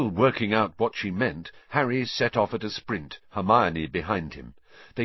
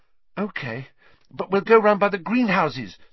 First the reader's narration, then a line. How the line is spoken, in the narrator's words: said Hermione breathlessly